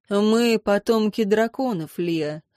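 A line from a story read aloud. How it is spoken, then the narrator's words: Sighing. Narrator (Russian): вздохнул лорд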